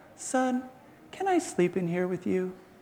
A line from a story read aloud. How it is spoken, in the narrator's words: Daddy will come after me and sweetly ask